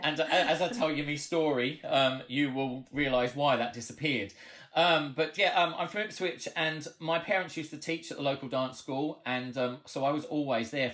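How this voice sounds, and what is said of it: Australian twang accent. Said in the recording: “the weird Australian twang of an accent that I have ... You don't sound Suffolk at all.”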